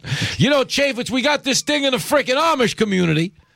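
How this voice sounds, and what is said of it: Put-on tough Teamster accent. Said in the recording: “my MOOC Teamster accent”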